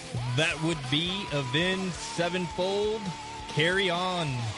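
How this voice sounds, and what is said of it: Punchy radio announcer voice. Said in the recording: “give me your announcer voice. Come on, punch it. ... That's a good punch.”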